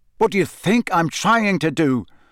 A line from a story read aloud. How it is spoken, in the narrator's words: said Harry angrily